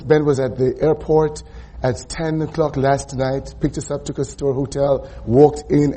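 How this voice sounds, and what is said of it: Slightly hoarse voice. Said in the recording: “my voice is a little bit hoarse, a little bit of laryngitis,”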